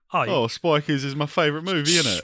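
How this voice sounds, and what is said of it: Put-on British accent. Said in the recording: “You guys do a British accent.”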